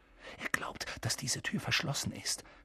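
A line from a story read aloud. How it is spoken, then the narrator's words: Whispered. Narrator (German): flüsterte Harry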